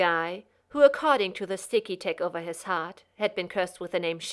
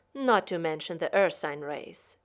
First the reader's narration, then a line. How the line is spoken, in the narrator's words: said Shepard, nodding solemnly